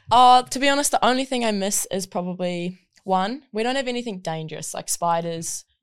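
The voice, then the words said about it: New Zealand accent. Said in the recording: “a lot of people are probably going to notice the accent ... I'm from New Zealand.”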